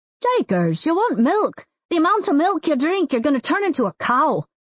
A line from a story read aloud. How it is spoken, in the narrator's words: Mick exclaimed